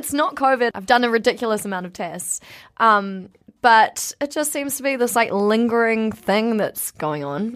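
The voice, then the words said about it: Hoarse, partly lost voice. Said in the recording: “is missing one voice ... I am missing one voice or areas of my voice ... I'm here, but my voice isn't.”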